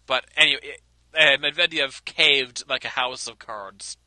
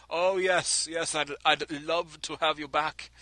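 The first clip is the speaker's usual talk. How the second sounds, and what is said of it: Poor Russian accent, sounds Austrian. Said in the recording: “I sound like I was Austrian. I can't do a good Russian accent”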